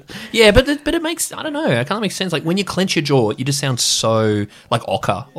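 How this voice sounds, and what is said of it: Australian accent. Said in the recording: “Aussie ... I come from, like, the North Shore of Sydney, and so I do have that kind of accent”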